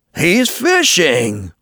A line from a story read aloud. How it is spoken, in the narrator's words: exclaimed Billy Mink